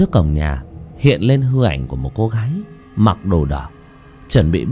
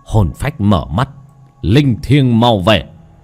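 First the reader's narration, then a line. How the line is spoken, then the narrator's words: Chanting shout. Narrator (Vietnamese): Bác cổ miệng quát lên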